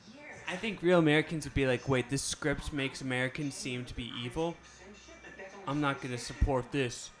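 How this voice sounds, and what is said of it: Put-on American accent. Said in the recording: “And you notice how my accent changed for that audition.”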